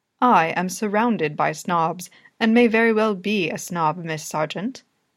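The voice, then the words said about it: Posh accent. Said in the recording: “with a posh accent”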